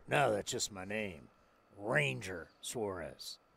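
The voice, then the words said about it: Old Western gunfighter drawl. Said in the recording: “just sounds like a gunfighter, right? ... You're mixing a little bit of like Southern Texas ... I'm like an old Western guy”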